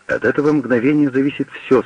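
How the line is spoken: Plain. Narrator (Russian): сказал врач

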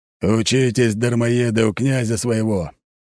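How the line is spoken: Cheerful growl. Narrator (Russian): весело рыкнул Аршавин

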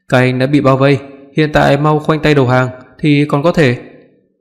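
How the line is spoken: Loud through megaphone. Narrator (Vietnamese): Đội trưởng của đội cảnh sát vũ trang cầm loa lớn tiếng nói

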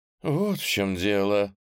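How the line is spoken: Relieved exhale. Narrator (Russian): облегченно выдохнул Александрит

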